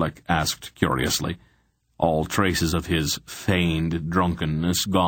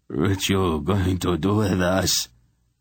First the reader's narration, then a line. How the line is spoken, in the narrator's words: Besher asked nervously